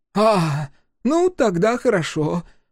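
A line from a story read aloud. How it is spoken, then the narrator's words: Relieved exhale. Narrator (Russian): парламентарий облегченно выдохнул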